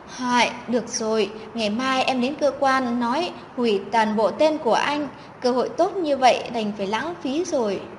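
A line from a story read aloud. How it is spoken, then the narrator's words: Sighing. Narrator (Vietnamese): Chất Ngọc thở dài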